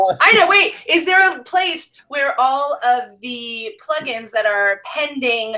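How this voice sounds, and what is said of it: Usual voice. Nothing is said of it.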